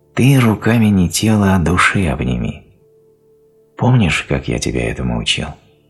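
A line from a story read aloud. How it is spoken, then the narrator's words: Gentle, affectionate. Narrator (Russian): Радомир сказал ласково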